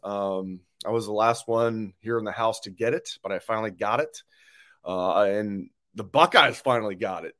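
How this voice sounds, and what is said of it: Sick, strained voice. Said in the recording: “I'm a little bit under the weather, so excuse my voice.”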